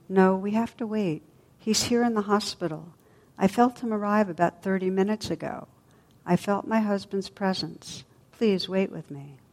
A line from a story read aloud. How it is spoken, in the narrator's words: she said quietly